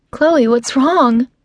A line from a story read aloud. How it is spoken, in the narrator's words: her voice growing more urgent with every word she speaks